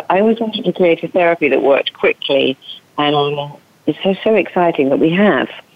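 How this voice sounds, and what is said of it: English accent. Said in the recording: “you have quite the accent ... It's from England. It's from I come from Cambridge”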